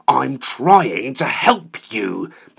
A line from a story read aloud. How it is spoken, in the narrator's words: half spat, half spluttered through fury, fear and outrage